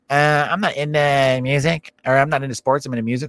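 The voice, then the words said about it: Annoying, flamboyant mocking voice. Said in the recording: “I don't know why I made him sound flamboyant. That's not what I was going for at all, but I wanted him to sound annoying ... my voice just fucked up a little bit ... Some stupid voice like that”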